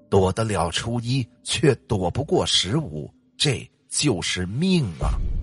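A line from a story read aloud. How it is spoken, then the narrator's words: Long sigh. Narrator (Chinese): 仙姑又悠悠的叹气，说了一句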